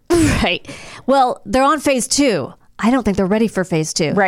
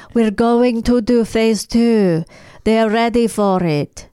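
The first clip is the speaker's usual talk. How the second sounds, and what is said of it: Put-on Russian accent. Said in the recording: “that's probably a better Russian accent than”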